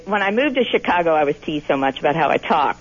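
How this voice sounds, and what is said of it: Strong Kentucky drawl. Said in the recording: “I hear your Kentucky drawl really strongly... It's there.”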